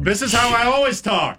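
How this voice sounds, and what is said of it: Very loud shouting voice. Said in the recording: “You're very loud.”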